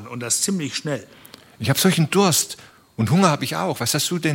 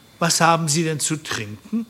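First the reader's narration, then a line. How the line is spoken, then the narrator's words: Plain. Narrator (German): fragte Harry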